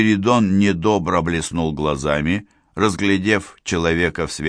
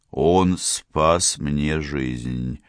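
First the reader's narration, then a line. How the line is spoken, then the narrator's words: Muffled. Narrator (Russian): глухо ответил Спиридон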